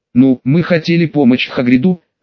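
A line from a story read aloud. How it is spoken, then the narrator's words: Uncertain speech. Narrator (Russian): неуверенно сказал Рон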